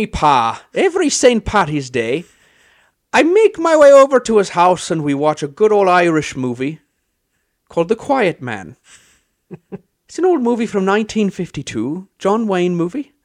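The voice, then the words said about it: Put-on Irish accent. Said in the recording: “I could have kept listening to you talk like that, honestly. ... The only reason I can do an Irish accent is because of that movie.”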